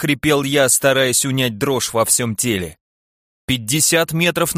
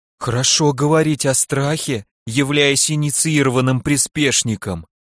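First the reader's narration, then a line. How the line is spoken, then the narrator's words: Trembling voice. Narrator (Russian): напомнила о себе Маринар дрожащим голосом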